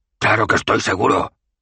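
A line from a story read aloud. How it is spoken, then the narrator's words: Boss roaring. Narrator (Spanish): rugió el jefe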